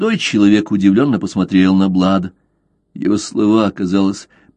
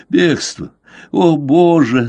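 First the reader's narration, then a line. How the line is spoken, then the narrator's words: Breathless, sobbing like child. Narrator (Russian): задыхаясь, сказал он зарыдал, как ребенок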